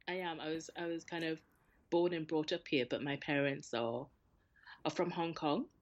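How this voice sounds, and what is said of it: Geordie Newcastle accent. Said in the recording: “your accent, are you Newcastle like Geordie born and bred?”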